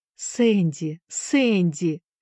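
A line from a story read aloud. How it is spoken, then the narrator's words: Exclaiming at last. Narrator (Russian): воскликнула, наконец, миссис Шафта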